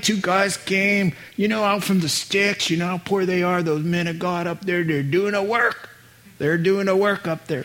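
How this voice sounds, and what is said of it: Put-on Southern American accent. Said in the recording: “I don't know where the southern accent comes.”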